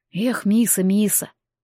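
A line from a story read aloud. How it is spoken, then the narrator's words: Very upset exhale. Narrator (Russian): бык совсем огорченно выдохнул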